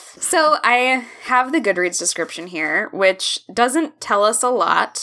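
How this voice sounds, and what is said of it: Usual voice. Nothing is said of it.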